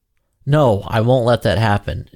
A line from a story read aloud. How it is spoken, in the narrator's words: exclaimed Ansel